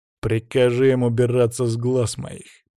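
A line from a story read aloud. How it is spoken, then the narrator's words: Growled. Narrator (Russian): прорычал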